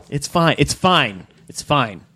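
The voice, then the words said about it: Stern, fatherly tone. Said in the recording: “Your stern dad voice.”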